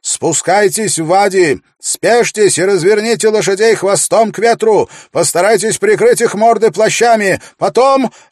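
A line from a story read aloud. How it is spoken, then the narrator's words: Shouted orders. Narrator (Russian): Селитен прокричал указание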